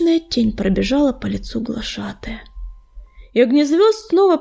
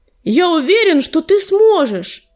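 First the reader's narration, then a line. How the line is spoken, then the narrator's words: Fervent exclamation. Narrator (Russian): горячо воскликнул огнезвезд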